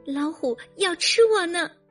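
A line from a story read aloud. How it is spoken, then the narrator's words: Crying little rabbit. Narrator (Chinese): 小白兔哭着说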